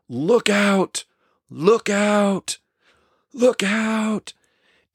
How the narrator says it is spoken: off to the side a person yelling

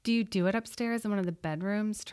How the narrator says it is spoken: Tracy spat at her

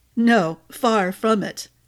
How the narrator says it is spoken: Jago chuckled

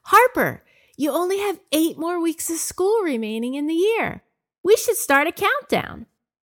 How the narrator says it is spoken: In an excited voice, said

